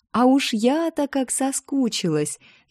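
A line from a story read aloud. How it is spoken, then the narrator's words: Joyful laughter. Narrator (Russian): Я радостно рассмеялась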